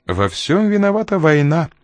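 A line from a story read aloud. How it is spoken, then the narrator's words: Almost cheerful. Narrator (Russian): почти весело проговорила Энн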